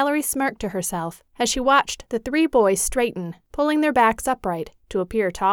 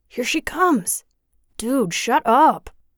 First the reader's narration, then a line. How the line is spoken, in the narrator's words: The tallest one groaned